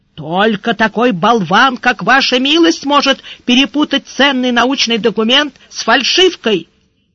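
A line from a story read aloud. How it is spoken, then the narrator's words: Shouted back. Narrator (Russian): Худой заорал в ответ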